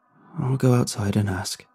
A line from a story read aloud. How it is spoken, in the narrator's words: I whispered